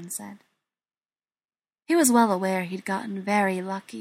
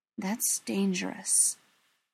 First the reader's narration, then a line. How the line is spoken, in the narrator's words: Greta said quietly